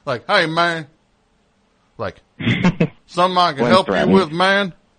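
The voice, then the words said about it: Put-on southern accent. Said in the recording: “I know he doesn't have a southern accent. Why am I giving you a southern accent? ... Did you have a southern accent when you were a kid? ... like, you'd lapse into it?”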